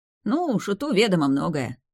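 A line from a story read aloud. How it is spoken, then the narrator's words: Smirking grunt. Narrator (Russian): хмыкнул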